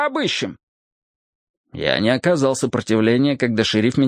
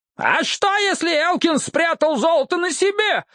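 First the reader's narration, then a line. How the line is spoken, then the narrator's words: Yelled. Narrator (Russian): заорал Джексон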